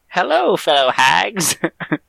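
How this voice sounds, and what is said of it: Old hag character voice. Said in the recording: “This is my best hag impression.”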